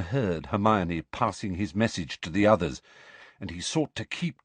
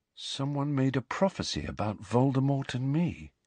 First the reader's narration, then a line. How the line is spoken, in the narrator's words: he said quietly